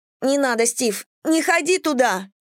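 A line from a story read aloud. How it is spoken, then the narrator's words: Shriek. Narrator (Russian): взвизгнула Мэдисон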